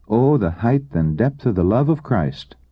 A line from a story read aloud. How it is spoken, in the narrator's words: we exclaim